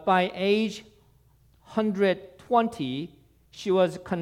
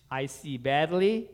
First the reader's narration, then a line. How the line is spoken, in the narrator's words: she said